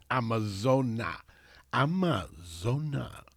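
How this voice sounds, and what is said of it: Imitates a singer's voice. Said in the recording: “my little Brian Ferry impression”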